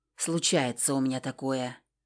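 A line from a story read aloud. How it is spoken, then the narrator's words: Grumbled. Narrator (Russian): буркнула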